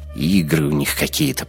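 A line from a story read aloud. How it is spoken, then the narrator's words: Grumbled. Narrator (Russian): пробурчал я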